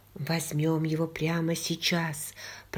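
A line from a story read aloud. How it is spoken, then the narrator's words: Whisper. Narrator (Russian): прошептал Йен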